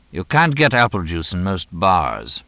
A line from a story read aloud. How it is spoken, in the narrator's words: Mooney said